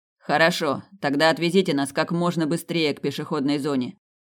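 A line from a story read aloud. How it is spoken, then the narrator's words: Shout. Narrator (Russian): крикнул Снейдер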